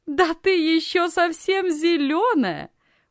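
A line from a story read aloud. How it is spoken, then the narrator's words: Loud laughter. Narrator (Russian): громко рассмеялась Анна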